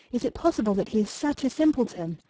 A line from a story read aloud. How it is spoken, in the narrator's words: said Louis eagerly